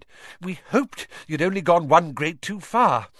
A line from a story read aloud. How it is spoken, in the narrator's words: Weasley panted